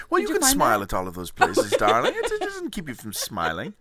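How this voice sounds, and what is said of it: Put-on accent, Irish-sounding at times. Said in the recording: “Your accent's very Irish at times.”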